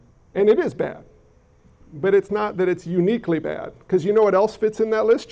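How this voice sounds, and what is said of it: Usual voice. Nothing is said of it.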